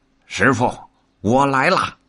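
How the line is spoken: Calling out. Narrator (Chinese): 大圣近前叫道

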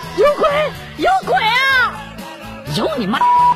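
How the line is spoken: Trembling man shouting. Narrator (Chinese): 男子浑身一颤，大声喊道

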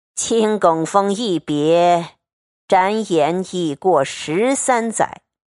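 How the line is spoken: Long sigh. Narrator (Chinese): 那和尚长叹一声道

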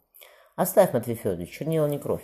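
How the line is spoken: Cheerful. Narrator (Russian): весело сказал Мария Тускуратов

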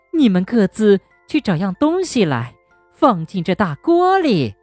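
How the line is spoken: Mysterious smile. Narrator (Chinese): 她神秘的笑了笑，说

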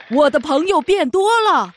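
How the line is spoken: Shouting. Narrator (Chinese): 有一个人大叫

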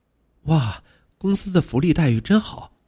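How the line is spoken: Admiring exclamation. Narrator (Chinese): 刘文感叹

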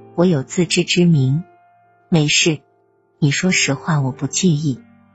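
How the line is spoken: Calm, faint smile. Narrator (Chinese): 刘姐淡淡一笑，说道

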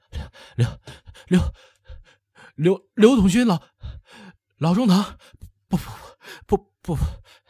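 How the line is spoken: Breathless, panting, frightened. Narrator (Chinese): 王八尺上气不接下气，煞白着脸，连喘带虚的说

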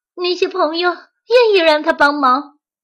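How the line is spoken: Loud shout. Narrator (Chinese): 松鼠大叫

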